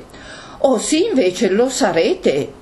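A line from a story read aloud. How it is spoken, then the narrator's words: Exclamation. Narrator (Italian): esclamò Fide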